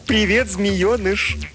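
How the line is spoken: Frightened giggle. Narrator (Russian): хихикнула, ей не смешно, а страшно

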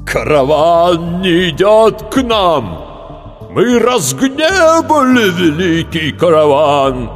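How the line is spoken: Terrifying voice, elder man. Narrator (Russian): заговорил страшным голосом старший

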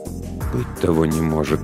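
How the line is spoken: Uncertain whisper. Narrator (Russian): прошептал рулевой, но его голосу недоставало уверенности

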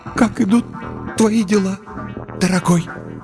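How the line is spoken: Strained forced words. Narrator (Russian): выдавила из себя несчастная

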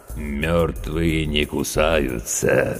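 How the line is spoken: Creaky voice, grinning. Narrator (Russian): скрипучим голосом проговорил ухмыляющийся Серега

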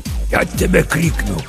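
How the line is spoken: Hissed through teeth. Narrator (Russian): прошипел сквозь зубы папа Сатырос

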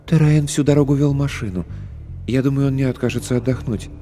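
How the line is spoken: Quiet, softening. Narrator (Russian): Смягчая резкость моего ответа, Эллис сказала тихо

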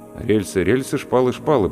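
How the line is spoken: Muttering. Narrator (Russian): пробормотал я

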